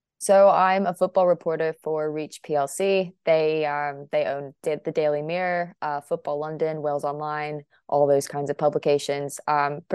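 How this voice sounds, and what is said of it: American accent. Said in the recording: “obviously, from my accent, I'm also American”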